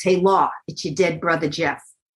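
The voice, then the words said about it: Put-on New York accent. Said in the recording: “with a New York accent.”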